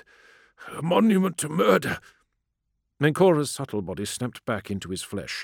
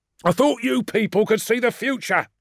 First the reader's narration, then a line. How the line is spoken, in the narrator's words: snapped Lucius